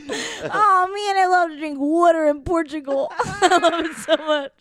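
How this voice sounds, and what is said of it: Exaggerated Pennsylvania accent. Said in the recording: “make fun of Pennsylvania and their accent”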